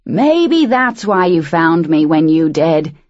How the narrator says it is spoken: Bill shouted over the wind

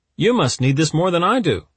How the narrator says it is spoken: Files shouted

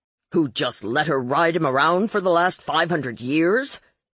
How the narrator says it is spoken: Marlowe scoffed

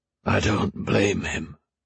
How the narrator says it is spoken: Terin said, his voice low

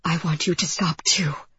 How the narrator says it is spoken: I whispered

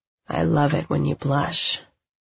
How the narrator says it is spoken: he says huskily

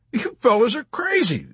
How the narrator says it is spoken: the Texan cried

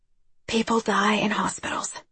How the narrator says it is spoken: she whispered

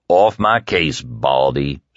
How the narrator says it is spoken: Stu growled

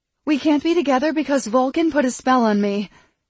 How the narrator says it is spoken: she blurted out

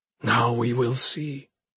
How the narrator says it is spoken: Koldre whispered in Arjun's ear

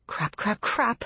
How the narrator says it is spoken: I mutter

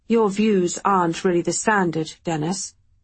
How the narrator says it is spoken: Mansfield answered flatly

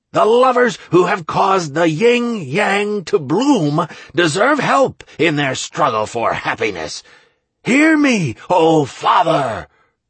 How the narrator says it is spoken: Draco yelled to Renox

